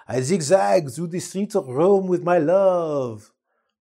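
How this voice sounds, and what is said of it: Put-on French accent. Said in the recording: “That's like a French accent.”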